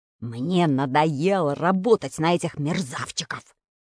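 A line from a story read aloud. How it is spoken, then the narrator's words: Menacing repetition. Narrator (Russian): грозно повторил худой, длинноносый сантехник Бегемотов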